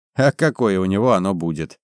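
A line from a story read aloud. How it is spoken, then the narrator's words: Laughing. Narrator (Russian): Валь засмеялся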